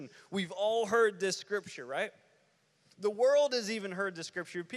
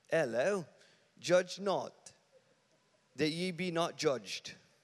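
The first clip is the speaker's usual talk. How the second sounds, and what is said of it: Put-on English accent. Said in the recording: “We do it in an English accent. It helps it. ... Sounds so much better, right?”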